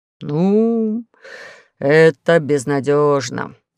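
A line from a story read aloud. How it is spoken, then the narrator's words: Sighing lunar chief. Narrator (Russian): вздохнул лунный начальник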